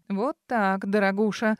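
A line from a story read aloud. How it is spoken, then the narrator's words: Angry, through clenched teeth. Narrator (Russian): Сквозь зубы зло процедил он без всякой деликатности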